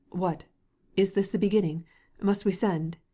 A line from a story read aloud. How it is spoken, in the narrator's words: he exclaimed in alarm